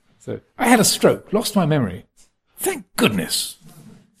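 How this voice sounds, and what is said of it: Posh English public school accent. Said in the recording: “He's got this very sort of pucker English public school accent.”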